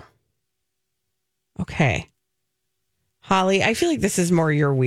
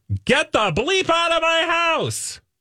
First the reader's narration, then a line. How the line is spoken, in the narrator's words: Leading lady screamed at an interviewer